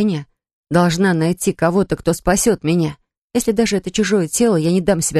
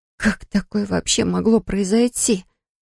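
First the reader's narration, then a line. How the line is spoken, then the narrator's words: Dazed whisper. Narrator (Russian): прошептала в пустоту, чувствуя легкое головокружение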